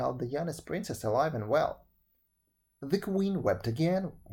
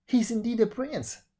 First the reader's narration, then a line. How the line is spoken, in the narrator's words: cried the courtiers